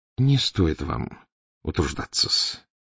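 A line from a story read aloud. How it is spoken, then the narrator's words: Gentle affectionate voice. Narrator (Russian): ласково молвил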